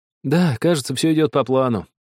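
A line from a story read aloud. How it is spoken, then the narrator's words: Sad voice. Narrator (Russian): грустным голосом проговорил Артур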